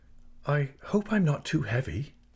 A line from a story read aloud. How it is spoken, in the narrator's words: she said timidly